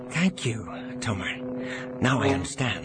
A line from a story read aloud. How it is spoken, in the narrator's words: Jansen whispered back